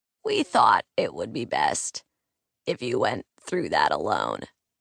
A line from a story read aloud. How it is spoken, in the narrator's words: it rasped